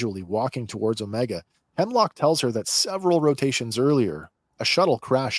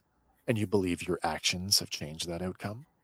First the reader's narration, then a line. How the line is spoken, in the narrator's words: Hemlock calmly replies